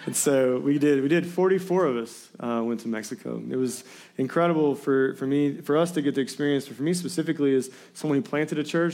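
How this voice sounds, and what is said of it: Hoarse, strained voice. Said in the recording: “Just bear with me a little bit on my voice. I lost my voice prior to the marriage retreat ... I was losing my voice”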